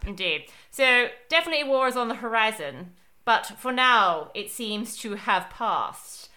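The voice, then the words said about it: Put-on British accent. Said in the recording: “I will stop talking in this British accent. Even though it's very hard to stop once you start it.”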